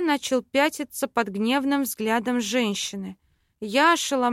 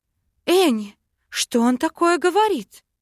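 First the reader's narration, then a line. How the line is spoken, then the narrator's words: Mother exclaiming. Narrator (Russian): Воскликнула мама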